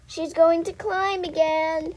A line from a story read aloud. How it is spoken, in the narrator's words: hollered